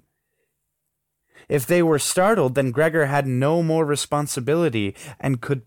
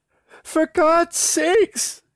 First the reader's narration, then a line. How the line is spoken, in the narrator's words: cried the mother, already in tears